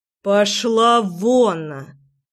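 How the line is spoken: Through gritted teeth. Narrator (Russian): Процедил Львовский

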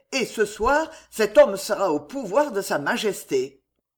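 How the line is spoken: Shouting. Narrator (French): cria Maurevers

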